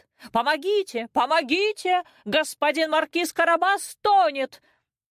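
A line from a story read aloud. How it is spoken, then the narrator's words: Sudden shout. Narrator (Russian): Вдруг кот как закричит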